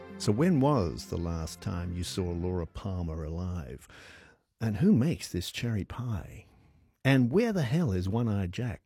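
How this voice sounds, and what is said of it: Poor Twin Peaks style impersonation. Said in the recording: “That's a very poor impersonation of what Twin Peaks is all about ... my crackerjack impersonations”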